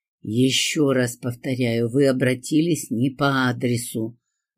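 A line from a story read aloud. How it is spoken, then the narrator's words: Woman's angry hiss. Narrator (Russian): зло прошипела женщина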